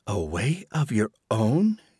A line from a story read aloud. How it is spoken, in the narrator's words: whispered